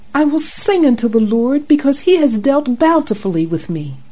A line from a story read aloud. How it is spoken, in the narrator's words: triumphantly concludes